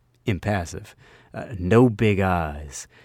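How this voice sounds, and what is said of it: Usual voice. Nothing is said of it.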